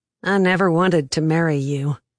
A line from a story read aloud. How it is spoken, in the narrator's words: he said icily